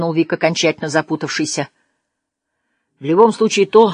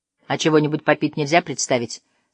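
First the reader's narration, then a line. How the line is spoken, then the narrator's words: Plain. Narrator (Russian): спросил Вик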